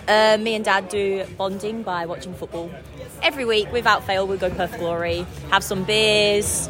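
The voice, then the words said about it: Mixed slight English and Australian accent. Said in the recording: “I have a bit of an English accent, just a little bit, ... and an Australian accent too.”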